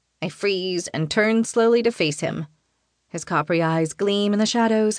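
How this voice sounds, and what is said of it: Usual voice. Nothing is said of it.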